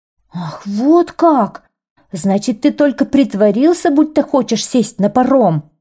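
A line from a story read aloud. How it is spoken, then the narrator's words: Shouting. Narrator (Russian): закричал синьор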